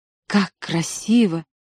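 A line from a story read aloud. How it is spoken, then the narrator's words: Whisper. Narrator (Russian): стоявшая рядом со мной девушка шептала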